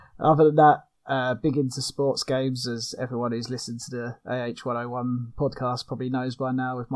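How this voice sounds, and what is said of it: British accent. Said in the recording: “from the UK, as you probably can hear from my accent”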